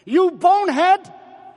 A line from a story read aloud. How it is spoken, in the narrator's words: I yelled